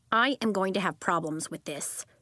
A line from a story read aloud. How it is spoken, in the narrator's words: Sebastian said